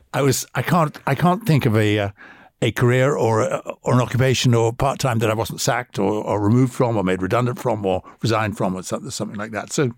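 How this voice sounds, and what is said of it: Posh English-sounding accent. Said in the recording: “posh accent ... where did you get the posh accent?”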